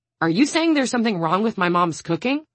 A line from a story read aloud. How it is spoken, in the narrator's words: Audrey snaps, so sharply